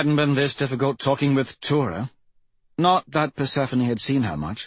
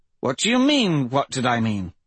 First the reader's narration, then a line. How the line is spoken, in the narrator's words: Persephone faltered